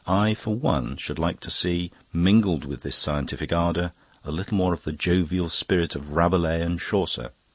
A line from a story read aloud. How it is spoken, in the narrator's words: Scogan sighed